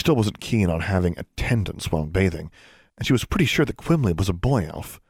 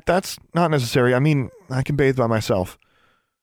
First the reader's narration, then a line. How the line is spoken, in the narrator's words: Alexandra stammered